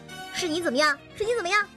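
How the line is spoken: Wife, sudden loud. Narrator (Chinese): 他老婆从后面突然大声道

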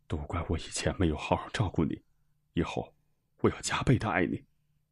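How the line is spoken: Choked, tearful. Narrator (Chinese): 饶文志哽咽着说

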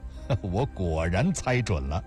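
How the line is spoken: Laughing. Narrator (Chinese): 林南笑道

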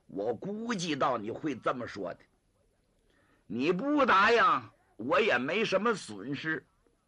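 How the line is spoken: Through gritted teeth. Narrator (Chinese): 张作霖一咬牙

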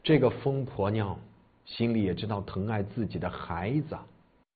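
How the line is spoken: Dejected mumbling. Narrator (Chinese): 乔生奶奶嘴里喃喃地说道

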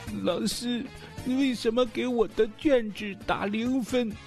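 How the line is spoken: Crying question. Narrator (Chinese): 小明拿着试卷哭着走进了老师办公室，见到老师之后，小明就问

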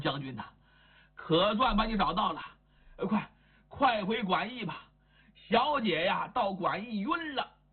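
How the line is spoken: Breathless, panting. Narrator (Chinese): 这位气喘吁吁呀

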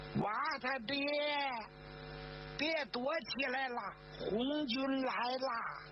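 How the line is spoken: Clear woman's shout. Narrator (Chinese): 这女人的声音，她清脆 她的喊声

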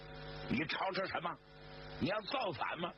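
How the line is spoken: Startled guards asking. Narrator (Chinese): 那几个卫兵给惊醒了，就问

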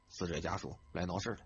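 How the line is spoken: Whisper. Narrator (Chinese): 一个交警同事低声的耳语

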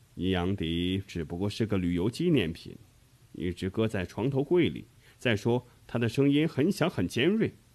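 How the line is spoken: Soft, gentle. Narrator (Chinese): 约克肖医生柔声地说

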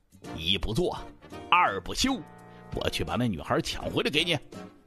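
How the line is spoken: Through gritted teeth. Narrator (Chinese): 大刚 咬牙切齿

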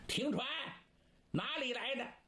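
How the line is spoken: Loud shout. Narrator (Chinese): 其中有个头目高声喊

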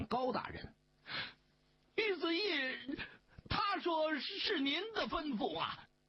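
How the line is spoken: Terrified frantic shouting. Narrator (Chinese): 邝小毛吓得面如土色，胡乱地喊了半晌

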